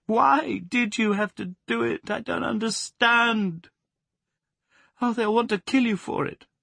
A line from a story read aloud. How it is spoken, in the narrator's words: When the paroxysm was over, she sobbed out